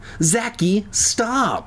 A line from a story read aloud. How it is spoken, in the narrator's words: Alex cried